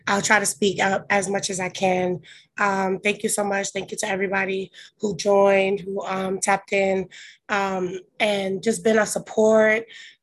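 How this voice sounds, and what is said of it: Hoarse voice. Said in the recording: “Please excuse my hoarse voice. ... I'm always losing my voice.”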